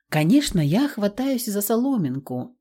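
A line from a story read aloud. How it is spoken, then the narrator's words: Calm. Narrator (Russian): спокойно кивнула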